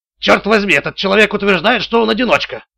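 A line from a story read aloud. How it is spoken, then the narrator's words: Snapping. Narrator (Russian): огрызнулся Блейк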